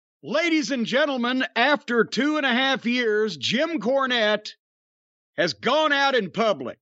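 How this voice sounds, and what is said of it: Slightly hoarse voice. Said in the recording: “You sound a little hoarse.”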